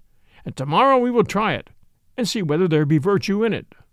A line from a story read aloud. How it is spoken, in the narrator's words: quoth the king merrily